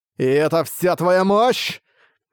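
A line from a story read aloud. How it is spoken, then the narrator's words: Loud roar. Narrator (Russian): Ван Линь громко взревел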